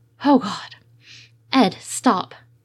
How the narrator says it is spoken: Steed panted out sharply

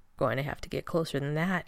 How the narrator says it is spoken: he murmured

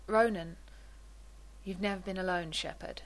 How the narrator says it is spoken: Ronan says quietly

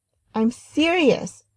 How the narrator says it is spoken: Rodney begged

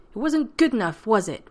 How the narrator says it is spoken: Rodney snapped

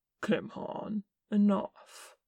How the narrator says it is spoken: said calmly

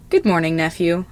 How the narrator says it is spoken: Iroh says, cheerfully

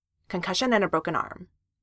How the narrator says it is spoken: Sam said firmly

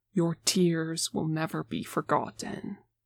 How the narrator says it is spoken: he says solemnly, but with a warm smile

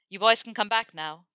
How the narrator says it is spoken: he shouted back to Seamus and Dean

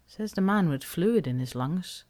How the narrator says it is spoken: she says dryly

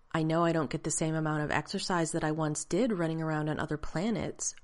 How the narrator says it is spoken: Rodney said in the clear, even tone he'd been schooled to use

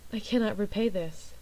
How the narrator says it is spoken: she said in a soft, tiny voice

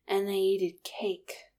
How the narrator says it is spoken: Keeley said proudly, though the words slurred together

